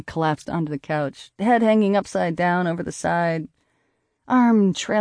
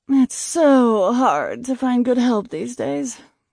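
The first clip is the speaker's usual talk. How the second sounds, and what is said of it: Terrible old Hollywood accent, moaning. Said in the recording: “I moaned in a terrible old Hollywood accent”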